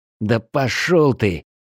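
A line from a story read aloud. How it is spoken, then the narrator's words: Angry mutter under breath. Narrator (Russian): зло буркнул я себе под нос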